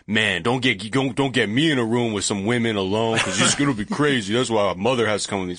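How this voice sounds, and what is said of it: Mike Pence impression. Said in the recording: “Such a good impression of Mike Pence's inner monologue. ... The he's voice like, in Mike Pence.”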